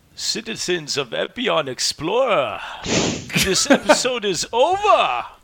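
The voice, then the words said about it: Imitates Bane character voice. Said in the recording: “Put on a good voice. Put on a good voice. ... Do it with Bane. Do it with Bane.”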